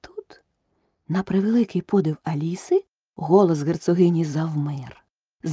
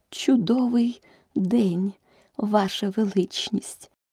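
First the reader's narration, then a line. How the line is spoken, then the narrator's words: Barely audible. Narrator (Ukrainian): почала герцогиня ледь чутним голосом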